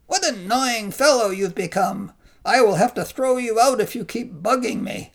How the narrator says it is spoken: yelled Skinny Father

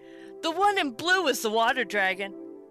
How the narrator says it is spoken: He called out

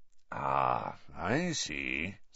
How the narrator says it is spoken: said Moody, softly

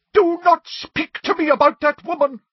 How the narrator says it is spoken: cried Professor Trelawney

